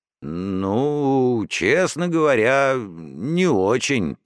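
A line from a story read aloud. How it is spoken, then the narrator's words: Muttered. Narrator (Russian): пробормотал дядя Марат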